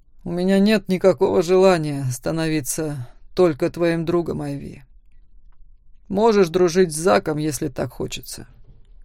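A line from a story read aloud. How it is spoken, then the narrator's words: Snorting remark. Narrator (Russian): хмыкнул Макс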